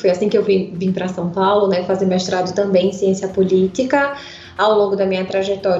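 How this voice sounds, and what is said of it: Pernambuco Brazilian Portuguese accent. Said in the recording (Portuguese): “Esse sotaque, né? É de claramente um sotaque pernambucano.”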